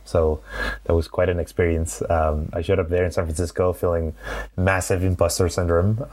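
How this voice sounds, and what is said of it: Spanish accent in English. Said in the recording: “my Spanish accent”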